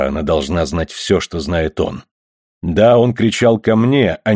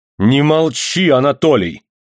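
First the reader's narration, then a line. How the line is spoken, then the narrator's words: Angry shout. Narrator (Russian): гневно крикнула Мария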